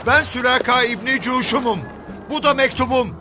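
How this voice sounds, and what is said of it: Shouting, raised voice. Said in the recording (Turkish): “sesini yükselten ... bağırmaya başladı”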